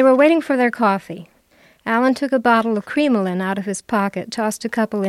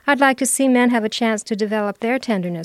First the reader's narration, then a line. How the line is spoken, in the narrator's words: said Sophie